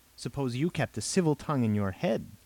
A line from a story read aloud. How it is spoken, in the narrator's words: Robert snapped